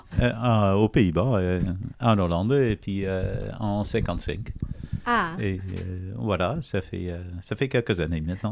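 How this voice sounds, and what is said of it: Foreign accent speaking French. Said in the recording (French): “vous vous remarquez peut-être son accent.”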